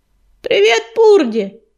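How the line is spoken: Shout. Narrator (Russian): крикнул ежевика

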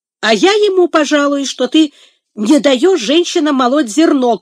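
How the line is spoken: Shout. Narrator (Russian): крикнул Сэмбо

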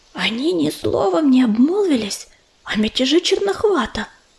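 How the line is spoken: Whisper. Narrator (Russian): шепнула она Угольку

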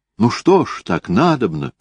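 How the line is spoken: Exclamation. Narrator (Russian): воскликнула она

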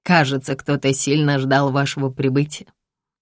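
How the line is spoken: Mocking whisper. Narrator (Russian): насмешливо шепчет Рушан

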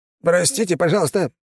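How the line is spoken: Wheezed. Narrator (Russian): просипел посыльный

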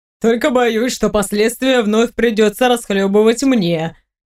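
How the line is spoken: Chuckling. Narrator (Russian): хохотнул Раал

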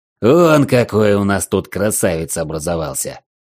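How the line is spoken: Big man's growl. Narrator (Russian): рыкнул здоровяк

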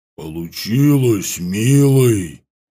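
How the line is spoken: Deep male bass voice. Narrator (Russian): сказала она густым мужским басом

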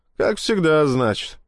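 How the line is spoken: Sighed. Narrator (Russian): вздохнул Клим

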